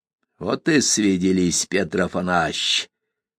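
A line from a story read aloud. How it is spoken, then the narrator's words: Direct, mocking. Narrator (Russian): прямо и насмешливо сказал бродяжка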